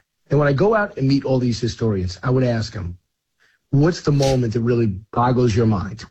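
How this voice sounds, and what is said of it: Hoarse, strained voice. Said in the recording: “losing your voice ... I'm a little hoarse”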